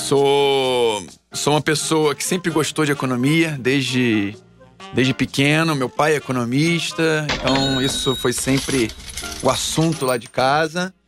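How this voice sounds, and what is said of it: Rio de Janeiro Brazilian accent. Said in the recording (Portuguese): “pelo sotaque vocês vão perceber que eu não sou de São Paulo, sou do Rio”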